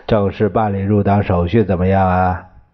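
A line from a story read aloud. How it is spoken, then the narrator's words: Laughing. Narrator (Chinese): 陈布雷同潘公展笑着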